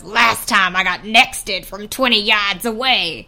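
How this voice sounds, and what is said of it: Growly put-on Southern-tinged voice. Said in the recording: “putting on this like horrible, it's like, it's definitely an affectation. It's not his real voice, but it's like this horrible growl ... Maybe he doesn't sound that like Southern. I'm just, like, putting that in ... my impression of Dickie”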